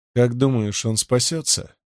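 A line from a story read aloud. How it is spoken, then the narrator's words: Quiet question. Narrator (Russian): негромко спросил Кимон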